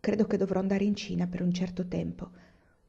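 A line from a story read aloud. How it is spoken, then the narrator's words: Plain. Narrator (Italian): disse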